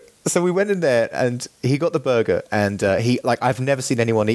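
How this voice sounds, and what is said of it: Usual voice. Nothing is said of it.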